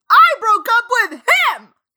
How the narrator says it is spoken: I shouted back

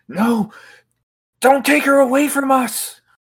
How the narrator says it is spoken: a male voice shout out in pain

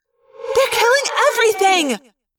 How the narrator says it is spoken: Cassie cried, outraged

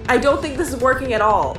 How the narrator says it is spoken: immediately shouts out

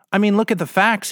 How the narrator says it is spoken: he said

